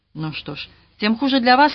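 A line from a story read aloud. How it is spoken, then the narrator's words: Sharp reply. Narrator (Russian): резко ответил Роберт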